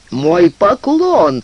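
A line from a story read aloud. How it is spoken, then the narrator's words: Exclaimed with muffled laugh. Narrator (Russian): воскликнул брат Анже, смеясь своим глухим смехом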